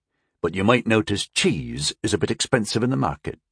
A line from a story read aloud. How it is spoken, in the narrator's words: he muttered